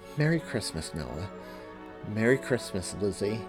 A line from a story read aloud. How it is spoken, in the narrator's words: she finished by saying quietly